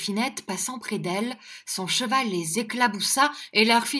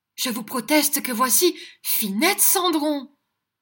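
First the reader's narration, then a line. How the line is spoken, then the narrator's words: Exclaimed. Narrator (French): L'autre s'écria tout de même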